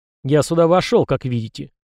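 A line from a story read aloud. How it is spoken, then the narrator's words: Sarcastic reply. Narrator (Russian): язвительно ответил он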